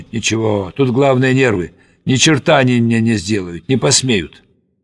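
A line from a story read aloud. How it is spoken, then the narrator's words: Muttering. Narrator (Russian): Бормочет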